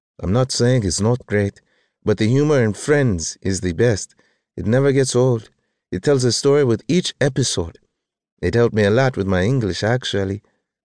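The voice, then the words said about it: French accent. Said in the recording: “Her French accent”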